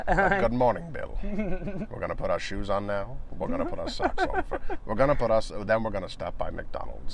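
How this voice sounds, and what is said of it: Poor imitation of hypnotic narrator voice. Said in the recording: “that Morgan Freeman type hypnotic voice ... my poor Morgan Freeman impression”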